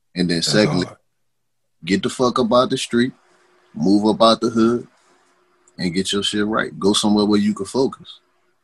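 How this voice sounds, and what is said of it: New Orleans accent. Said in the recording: “Because I done moved up out of New Orleans. You see, I ain't lost no part of my accent. ... I ain't lost no part of my accent.”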